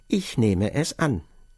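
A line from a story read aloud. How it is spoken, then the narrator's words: Plain. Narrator (German): sagte K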